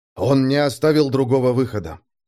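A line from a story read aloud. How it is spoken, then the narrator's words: Sighing. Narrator (Russian): вздохнул Дул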